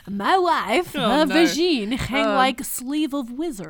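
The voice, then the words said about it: Put-on Borat-style comedic accent. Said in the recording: “Now I sound like Borat. ... don't bring fucking Borat in here”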